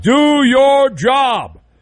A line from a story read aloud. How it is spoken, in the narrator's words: someone yelling